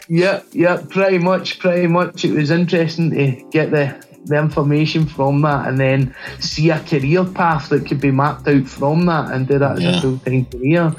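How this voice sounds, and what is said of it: Scottish accent. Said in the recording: “people might just kind of guess by the accent that you're maybe not native to the U.S. ... I'm from Glasgow in Scotland, which is in the U.K.”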